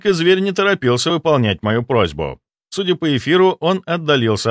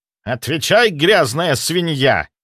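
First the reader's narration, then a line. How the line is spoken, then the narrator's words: Menacing words through teeth. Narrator (Russian): Процедил сквозь зубы главарь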